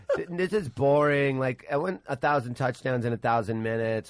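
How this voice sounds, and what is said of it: Imitates a bored girlfriend's voice. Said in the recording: “is that your Sam impression? ... That was my impression of every girlfriend”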